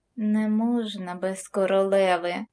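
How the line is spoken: Bitter sigh. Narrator (Ukrainian): провісниця гірко зітхнула

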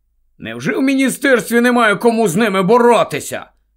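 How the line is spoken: Angry question. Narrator (Ukrainian): сердито запитав Рон

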